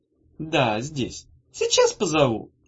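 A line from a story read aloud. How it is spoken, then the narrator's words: Cooing. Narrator (Russian): проворковала она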